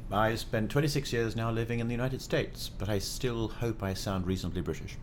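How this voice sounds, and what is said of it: British accent. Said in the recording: “you are British in accent”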